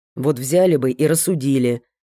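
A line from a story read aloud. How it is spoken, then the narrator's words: Silent inner grumbling. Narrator (Russian): ворчал мысленно Кисанов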